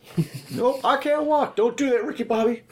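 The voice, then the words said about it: Imitates a movie character's voice. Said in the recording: “No, Talladega Nights.”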